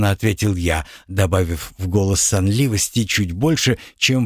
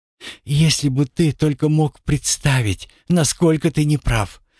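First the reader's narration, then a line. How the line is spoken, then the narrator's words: Sighing woman. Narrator (Russian): вздохнула моя собеседница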